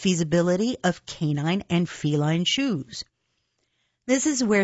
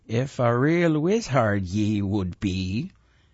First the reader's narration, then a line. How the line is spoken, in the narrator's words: his voice burbled from the roiled waters of the charmed pot